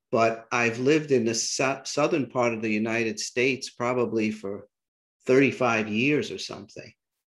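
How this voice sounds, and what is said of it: New York City accent. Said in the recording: “I still have my New York City accent, apparently”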